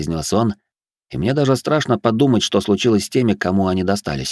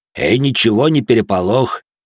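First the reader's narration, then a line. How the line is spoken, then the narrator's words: Deep bass voice. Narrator (Russian): пробасил Жуль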